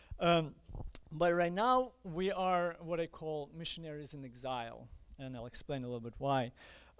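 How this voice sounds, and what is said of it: Ukrainian accent in English. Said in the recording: “If you notice my accent, I am Ukrainian.”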